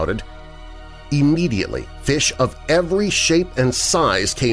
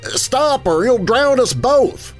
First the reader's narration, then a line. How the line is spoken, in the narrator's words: shouted